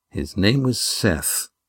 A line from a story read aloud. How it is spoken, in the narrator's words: Astraea muttered